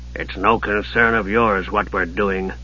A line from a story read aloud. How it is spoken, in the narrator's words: Jack growled